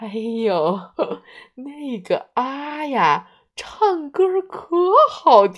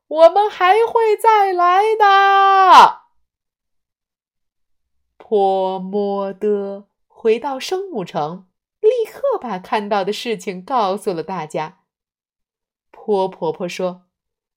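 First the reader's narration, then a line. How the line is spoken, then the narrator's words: Loud call. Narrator (Chinese): 几个声母朋友 大声说道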